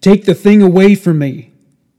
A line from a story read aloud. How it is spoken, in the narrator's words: She shouted at them, saying